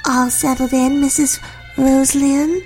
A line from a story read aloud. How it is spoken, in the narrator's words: she asked in a soft but childish voice, almost as if Miss Rosalyn were a young child waiting to be told it was bedtime